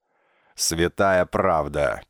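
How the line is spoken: Booming deep bass. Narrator (Russian): прогудел он басом

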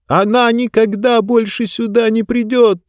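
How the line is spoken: Shout. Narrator (Russian): закричала Диба

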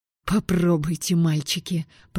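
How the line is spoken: Hissing. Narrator (Russian): прошипела я

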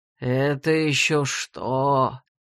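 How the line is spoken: Anticipatory drawl. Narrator (Russian): предвкушающе протянул он

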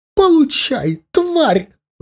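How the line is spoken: Shrieked. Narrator (Russian): взвизгнула

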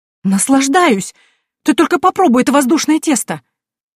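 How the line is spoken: Smiling exclamation, woman. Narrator (Russian): С улыбкой воскликнула женщина

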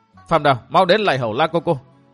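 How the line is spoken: Loud. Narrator (Vietnamese): nàng lớn tiếng bảo

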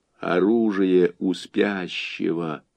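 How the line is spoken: Quiet remark from behind. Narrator (Russian): негромко обронил Борис в затылок Гликерии

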